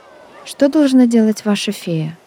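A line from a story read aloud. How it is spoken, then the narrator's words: Timid question. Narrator (Russian): робко спросила Настя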